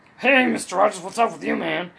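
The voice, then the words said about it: Jesse Ventura impression. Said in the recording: “I did the voices of the nanny and Jesse Ventura.”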